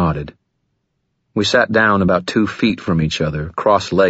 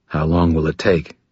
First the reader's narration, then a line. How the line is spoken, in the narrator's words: he asked